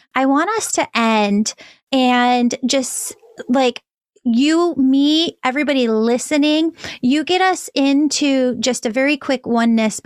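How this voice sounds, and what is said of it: Strained, worn-out voice. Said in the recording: “my voice is a little shot today”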